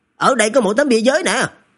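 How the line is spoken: Shouting, discovery. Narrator (Vietnamese): có người phát hiện ra điều gì đó, hét lên

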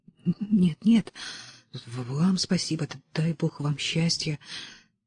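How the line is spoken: Surprised, moved mumble. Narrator (Russian): Удивленный, растроганный, он пробормотал

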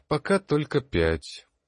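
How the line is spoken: Glum, dejected. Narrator (Russian): уныло произнес магистр

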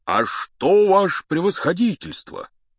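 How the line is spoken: Joyful. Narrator (Russian): сказал он радостно

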